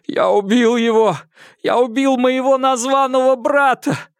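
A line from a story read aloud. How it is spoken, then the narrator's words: Loud sobbing. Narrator (Russian): Хуан Цзинфэн опустился на пол и зарыдал уже во весь голос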